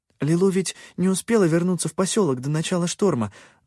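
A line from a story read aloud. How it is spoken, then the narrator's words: Rapid chatter, accelerating. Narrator (Russian): затараторила она со все увеличивающейся скоростью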